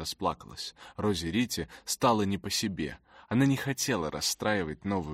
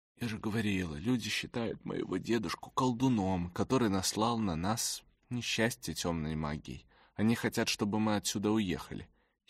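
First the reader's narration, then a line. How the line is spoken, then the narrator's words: Trembling voice. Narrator (Russian): Хильда рассказала дрожащим голосом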